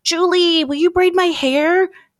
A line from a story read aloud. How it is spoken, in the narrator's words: Kelsey pleaded